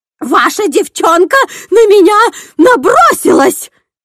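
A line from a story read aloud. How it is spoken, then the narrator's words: Shrieking. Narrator (Russian): визжала Корнелия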